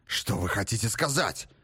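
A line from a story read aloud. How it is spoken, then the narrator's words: Hoarse agitated cry. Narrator (Russian): вскричал Грок охрипшим от волнения голосом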